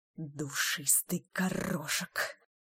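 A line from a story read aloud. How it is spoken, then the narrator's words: Hissing. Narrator (Russian): прошипела Беладонна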